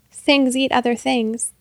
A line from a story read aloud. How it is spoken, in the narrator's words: the first sailor laughed too